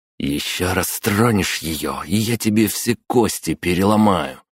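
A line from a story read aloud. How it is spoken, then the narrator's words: Hissing. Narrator (Russian): прошипел я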